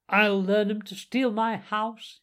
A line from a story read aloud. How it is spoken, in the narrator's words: he cried